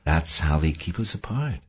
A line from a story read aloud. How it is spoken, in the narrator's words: Mavis said gently